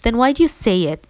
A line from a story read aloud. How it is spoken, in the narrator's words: I sobbed, hiccuping